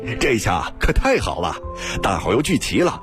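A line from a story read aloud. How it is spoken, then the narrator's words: Overjoyed laughter. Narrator (Chinese): 新建大喜笑道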